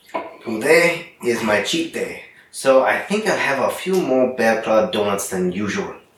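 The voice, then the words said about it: Poor attempt at French accent. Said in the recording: “That sounded so like South African. ... sounded Spanish. ... I'm terrible at my French accent.”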